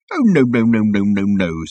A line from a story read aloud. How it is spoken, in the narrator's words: said the captain